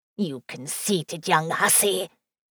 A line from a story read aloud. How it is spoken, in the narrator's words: she hissed